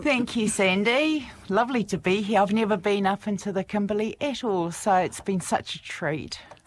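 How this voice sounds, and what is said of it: Strong New Zealand accent. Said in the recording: “you may be able to tell from my accent, I'm from New Zealand, so I still have quite a strong Kiwi accent”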